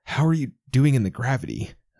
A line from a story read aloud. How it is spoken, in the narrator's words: I croak